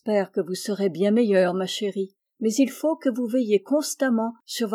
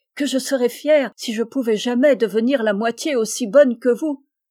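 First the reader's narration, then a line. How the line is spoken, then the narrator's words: Deeply moved exclamation. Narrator (French): s'écria Jo, très touchée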